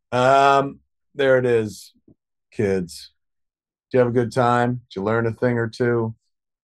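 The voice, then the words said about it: Soft, soothing bedtime-story voice. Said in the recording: “why is ... doing a bedtime voice?”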